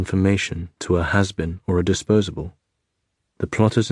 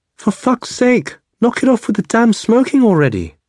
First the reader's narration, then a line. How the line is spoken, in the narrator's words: she exclaimed, her face livid with contempt